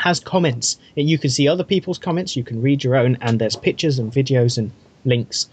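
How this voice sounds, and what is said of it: Usual voice. Nothing is said of it.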